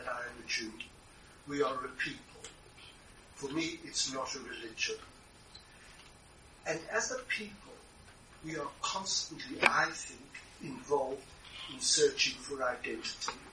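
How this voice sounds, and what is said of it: South African accent. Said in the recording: “you can hear from my accent, I grew up in South Africa”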